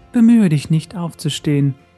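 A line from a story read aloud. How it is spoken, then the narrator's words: Soft gentle voice. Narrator (German): sprach jene mit sanfter Stimme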